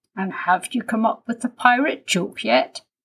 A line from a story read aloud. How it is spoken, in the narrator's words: asked his daddy